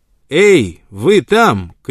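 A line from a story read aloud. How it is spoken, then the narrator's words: Sudden shout. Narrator (Russian): крикнул он вдруг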